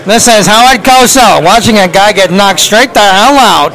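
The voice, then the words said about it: Howard Cosell impression. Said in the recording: “your best Howard Cosell impersonation”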